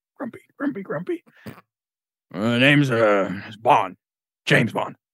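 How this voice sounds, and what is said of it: Bad Tom Hanks as Otto impression. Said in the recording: “doing an impression ... Tom Hanks in A Man Called Otto ... That was really bad.”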